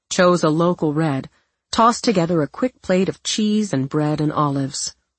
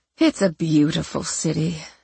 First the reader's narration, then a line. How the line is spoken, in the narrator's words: Cece murmured